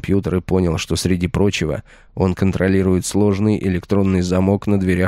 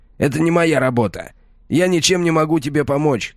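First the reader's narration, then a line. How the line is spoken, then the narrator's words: Shouted. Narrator (Russian): крикнул я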